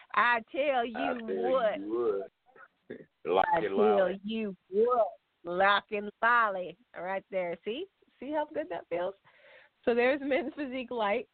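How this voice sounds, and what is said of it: Put-on country accent. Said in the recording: “say it in your best country accent.”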